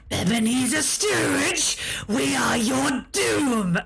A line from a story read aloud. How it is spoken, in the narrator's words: the three of them in unison rasp out